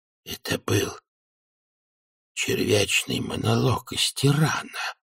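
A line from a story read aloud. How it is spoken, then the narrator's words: Whisper. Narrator (Russian): прошептал Хьюэлл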